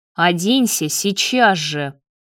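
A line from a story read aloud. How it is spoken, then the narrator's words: Growling. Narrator (Russian): прорычал Давид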